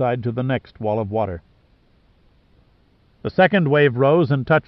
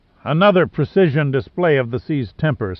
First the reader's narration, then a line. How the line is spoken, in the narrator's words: sputtered Giordino